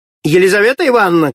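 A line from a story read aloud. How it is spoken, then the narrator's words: Shout. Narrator (Russian): крикнула она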